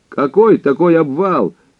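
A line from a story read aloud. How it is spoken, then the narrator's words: Loud question. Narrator (Russian): громко спросил Хинкус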